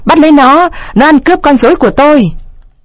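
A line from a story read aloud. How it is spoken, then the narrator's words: Old man's loud yell. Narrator (Vietnamese): lão Caraba Baraba hét tướng lên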